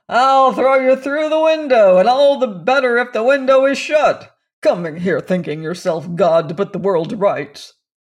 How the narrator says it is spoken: he bellowed

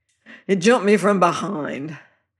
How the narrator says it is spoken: says the fellow Andy, twixt snarl and groan, and writhing under my prisoning feet

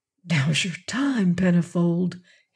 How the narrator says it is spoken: he muttered

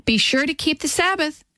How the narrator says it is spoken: cried Kitty

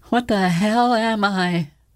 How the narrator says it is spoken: John wheezed the words

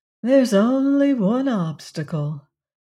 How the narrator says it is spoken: said Valancy dreamily

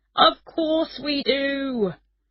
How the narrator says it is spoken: shouted

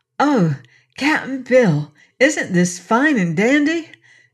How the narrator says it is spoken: exclaimed Trot rapturously

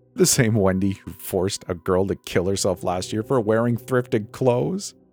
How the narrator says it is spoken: Luke barked out a laugh

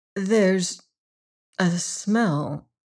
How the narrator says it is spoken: murmured Miss Pym rather faintly

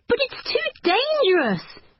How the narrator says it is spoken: cried

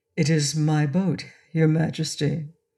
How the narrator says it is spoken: said Inga quietly

